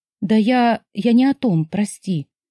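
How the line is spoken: Sighing. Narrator (Russian): вздохнула

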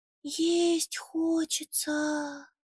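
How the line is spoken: Said quietly. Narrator (Russian): Тихо сказал Буба

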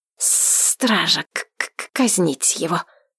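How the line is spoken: Grim, through teeth. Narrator (Russian): мрачно процедил Троян

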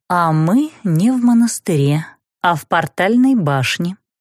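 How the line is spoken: Calm reply. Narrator (Russian): спокойно ответила настоятельница

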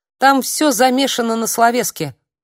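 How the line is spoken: Angry. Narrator (Russian): зло просветила я

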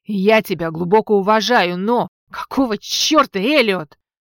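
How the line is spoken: Barking. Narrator (Russian): рявкнула я

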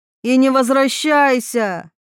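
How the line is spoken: Mother shouting after someone. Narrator (Russian): крикнула мать вдогонку

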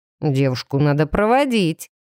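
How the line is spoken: Mocking remark. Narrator (Russian): насмешливо бросил кто-то из его спутников

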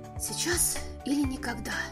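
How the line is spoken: Whispered to himself. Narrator (Russian): прошептал он себе

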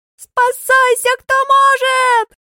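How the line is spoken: Panicked yell. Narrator (Russian): Вопит Дадошка

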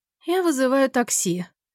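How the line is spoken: Sleepy. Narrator (Russian): сонно говорит та же Мелани

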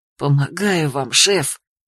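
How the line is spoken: Whisper. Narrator (Russian): прошептал в ответ Микей

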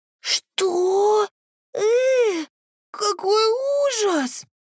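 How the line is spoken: Tearful breaking squeak. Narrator (Russian): моя лучшая подруга, срывающимся голоском пропищала сквозь слезы

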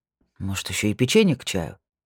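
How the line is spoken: Muttered under breath. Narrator (Russian): пробормотал Вальтер себе под нос

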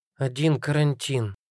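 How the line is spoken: Muttering. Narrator (Russian): пробормотала Казя

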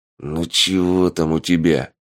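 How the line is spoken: Growling. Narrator (Russian): рыкнул Полос

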